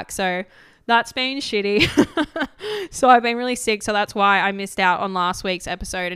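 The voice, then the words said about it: Croaky, hoarse voice from illness. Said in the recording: “you can probably hear in my voice, I'm still a little bit croaky”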